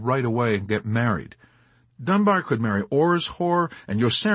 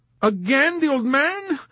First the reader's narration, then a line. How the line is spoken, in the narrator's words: cried the girl in wailing confusion